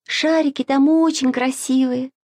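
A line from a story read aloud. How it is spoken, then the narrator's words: Sighing. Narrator (Russian): вздохнула Маша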